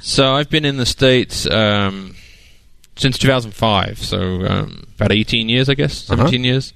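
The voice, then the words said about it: English accent, south of London. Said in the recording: “I don't think that's a Colorado accent ... From England, south of London.”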